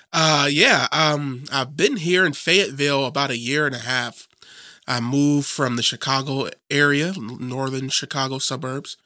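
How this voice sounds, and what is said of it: Slightly strange, sick-sounding voice. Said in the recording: “my voice sounds a little strange. I'm a little sick still”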